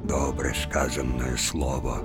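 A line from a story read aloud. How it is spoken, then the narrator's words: Quiet, gray-haired elders. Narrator (Russian): самые седые, тихо сказали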